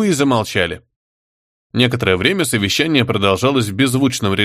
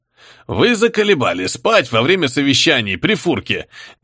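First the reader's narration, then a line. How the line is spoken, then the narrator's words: Sudden bark. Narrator (Russian): неожиданно рявкнул великий фюрер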